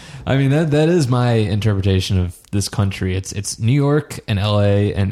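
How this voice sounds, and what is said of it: Usual voice. Nothing is said of it.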